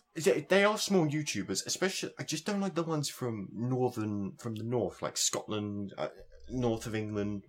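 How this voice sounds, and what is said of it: Southeast English accent. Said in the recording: “I come from the southeast. So that's why my accent is actually bearable.”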